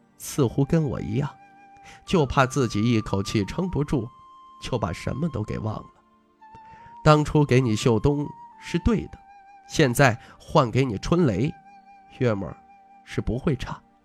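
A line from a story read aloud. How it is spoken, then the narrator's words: Soft-spoken. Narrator (Chinese): 白虎脸 轻声道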